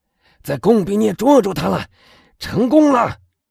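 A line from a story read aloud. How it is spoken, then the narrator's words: Shouting. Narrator (Chinese): 他喊道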